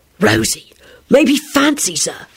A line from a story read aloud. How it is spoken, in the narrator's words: William hissed